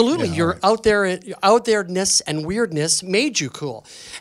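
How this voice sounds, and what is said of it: Usual voice. Nothing is said of it.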